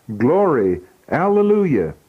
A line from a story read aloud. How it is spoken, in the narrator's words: the saints in the cloud cried